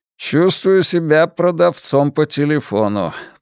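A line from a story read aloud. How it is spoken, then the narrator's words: Grumble. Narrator (Russian): проворчал он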